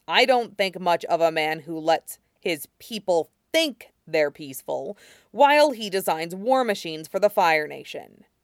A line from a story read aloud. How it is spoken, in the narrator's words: Zuko said harshly